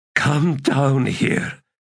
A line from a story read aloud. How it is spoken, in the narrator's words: she said in a rasp